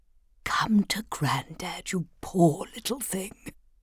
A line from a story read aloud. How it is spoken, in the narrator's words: he would always whisper